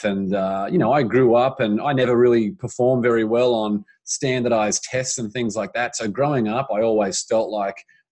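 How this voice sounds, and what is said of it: Australian accent. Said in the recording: “I grew up in Brisbane, Australia. So that's the Australian accent that's, that the people can hear and possibly not even understand right now.”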